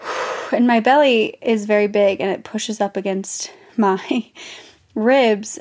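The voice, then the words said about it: Winded, breathless voice. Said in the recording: “you can tell from my voice that I'm winded ... it's funny how winded I am all the time”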